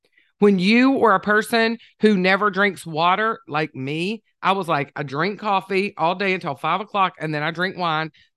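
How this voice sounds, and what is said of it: Southern American accent. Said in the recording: “I am Southern. I don't know if you could tell by my accent”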